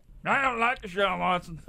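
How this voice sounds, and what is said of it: Poor imitation of another person's voice. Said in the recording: “The Patrick Mahomes impression has made its way out... it's an awful impersonation... That awful impression”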